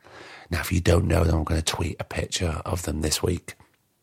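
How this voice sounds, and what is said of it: Tired, failing voice. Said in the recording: “Can you hear my voice is going? It's, it's very late. I'm tired.”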